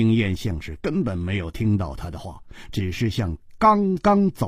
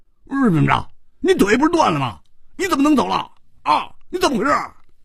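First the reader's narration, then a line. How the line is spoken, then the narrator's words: Furious roaring. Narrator (Chinese): 胡铁花更要气疯了，他大声地吼着说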